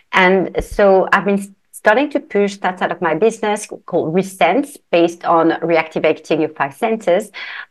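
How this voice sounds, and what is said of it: London English accent. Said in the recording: “you guys hear her beautiful accent. She is also from London. She's in London, UK.”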